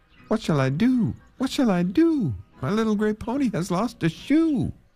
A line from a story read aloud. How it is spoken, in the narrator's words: he cried again